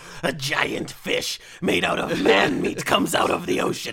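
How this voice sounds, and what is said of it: Usual voice. Nothing is said of it.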